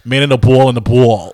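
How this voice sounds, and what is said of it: Put-on New Jersey tough-guy accent. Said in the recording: “like that accent ... Where is he from? ... because they're all from Jersey and they're those the tough guys”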